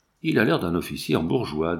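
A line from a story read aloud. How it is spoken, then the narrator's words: Said very quietly. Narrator (French): dit tout bas Daubrac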